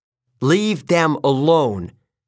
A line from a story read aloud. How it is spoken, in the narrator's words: I yelled